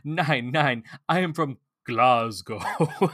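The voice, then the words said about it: Heavy put-on German accent. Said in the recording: “because of Albert's very heavy German accent”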